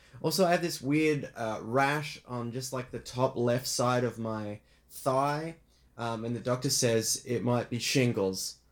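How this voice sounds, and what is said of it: Australian accent, sounds silly. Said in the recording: “stop doing that silly, silly voice ... that was an Australian accent, I believe ... It sounded very silly ... a silly, silly voice ... that's the way the person talks”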